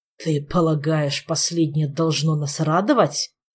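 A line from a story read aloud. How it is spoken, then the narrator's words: Gloomy growl. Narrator (Russian): Угрюмо прорычал первый паладин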